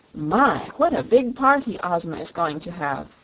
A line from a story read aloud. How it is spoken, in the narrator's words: exclaimed Dorothy